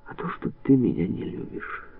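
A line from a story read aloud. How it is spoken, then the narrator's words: Calm. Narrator (Russian): спокойно произнес он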